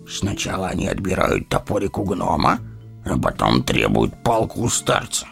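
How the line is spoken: Wry snort. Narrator (Russian): хмыкнул Гимли

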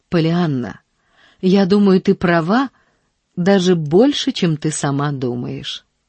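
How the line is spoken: Gentle, affectionate. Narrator (Russian): сказал он ласково

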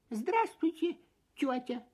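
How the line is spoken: Squeaked. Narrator (Russian): пискнул Фип

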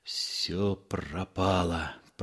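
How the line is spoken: Muttering. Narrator (Russian): пробормотал он

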